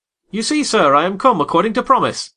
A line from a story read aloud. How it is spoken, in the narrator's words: I exclaimed, assuming the cheerful,